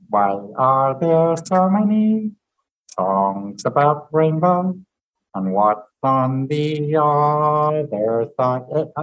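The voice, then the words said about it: Kermit the Frog voice impression. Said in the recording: “That's my impression of Kermit. Terrible”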